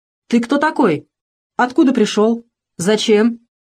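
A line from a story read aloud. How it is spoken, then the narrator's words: Stern question. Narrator (Russian): спросил строго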